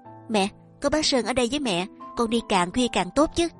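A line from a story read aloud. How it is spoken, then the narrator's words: Playful, innocent, smiling. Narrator (Vietnamese): nàng hồn nhiên, miệng mỉm cười, tinh nghịch với mẹ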